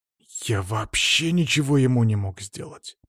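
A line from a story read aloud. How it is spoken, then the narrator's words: Growl. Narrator (Russian): прорычал Антон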